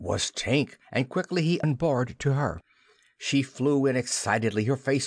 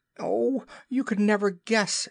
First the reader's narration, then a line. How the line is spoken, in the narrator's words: she cried